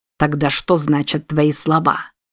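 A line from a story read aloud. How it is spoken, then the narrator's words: Angry question. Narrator (Russian): сердито взглянув на нее, спросил Купер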